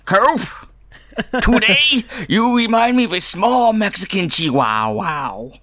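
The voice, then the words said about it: David Lynch impression. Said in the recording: “what is your best David Lynch impression? ... It's really bad.”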